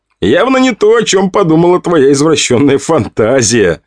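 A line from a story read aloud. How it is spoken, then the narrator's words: Laughing. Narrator (Russian): Я рассмеялся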